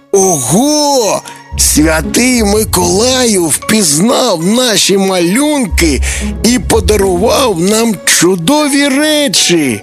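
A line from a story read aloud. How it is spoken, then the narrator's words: Joyful. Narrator (Ukrainian): радісно сказав Тимко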